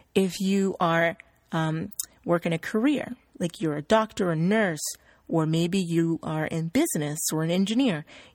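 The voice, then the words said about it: Standard American accent. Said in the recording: “I'm speaking in a standard American accent or dialect”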